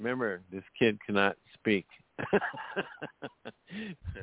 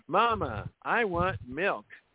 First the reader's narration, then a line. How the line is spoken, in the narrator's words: little Daniel exclaiming in a loud voice